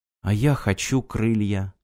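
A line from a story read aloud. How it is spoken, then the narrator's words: Quiet. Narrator (Russian): тихо сказала Ирина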